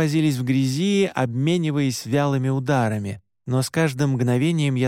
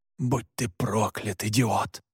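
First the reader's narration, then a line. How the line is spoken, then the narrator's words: Hiss. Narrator (Russian): прошипел Александр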